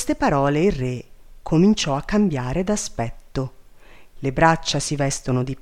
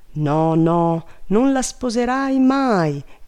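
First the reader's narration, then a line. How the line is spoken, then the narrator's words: Hushed cry. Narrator (Italian): gridò Sussio tutta zittita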